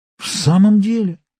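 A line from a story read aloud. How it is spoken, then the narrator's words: Astonished exclamation. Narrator (Russian): воскликнул я, ошеломленный всеми этими чудесами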